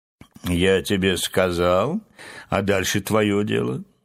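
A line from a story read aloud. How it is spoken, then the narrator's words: Dry, curt. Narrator (Russian): сухо закончил разговор Филин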